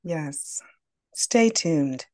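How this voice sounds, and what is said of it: Smooth public-radio announcer voice. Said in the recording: “That's my NPR voice. ... Call it NPR”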